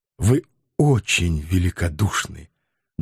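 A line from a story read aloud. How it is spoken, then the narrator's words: Shaky grateful thanks. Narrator (Russian): дрогнувшим голосом поблагодарил Анатоль Францевич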